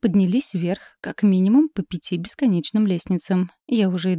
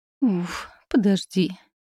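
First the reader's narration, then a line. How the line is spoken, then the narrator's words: Breathless groan. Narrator (Russian): простонала, пытаясь отдышаться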